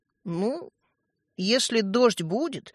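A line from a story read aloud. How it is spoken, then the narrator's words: Uncertain speech. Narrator (Russian): неуверенно проговорил Светлик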